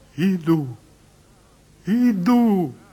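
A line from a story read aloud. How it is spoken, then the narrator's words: Joyful, tender. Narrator (Russian): Радостно, умиленно говорит все существо его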